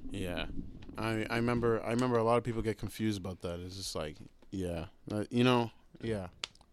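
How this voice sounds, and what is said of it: American accent. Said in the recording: “it sounds like you have no accent ... I have an American accent ... I don't even sound African”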